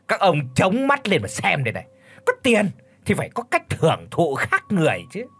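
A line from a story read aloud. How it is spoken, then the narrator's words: Boastful sneering reply. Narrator (Vietnamese): Vốn tính hiếu thắng lại thêm cái thói trưởng giả học làm sang, cho nên lão Kha đã cười khẩy đáp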